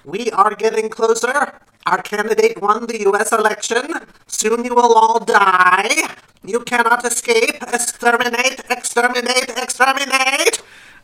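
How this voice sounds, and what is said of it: Dalek robotic voice impression. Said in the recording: “in the voice of a Dalek ... I'm going to do the Dalek voice.”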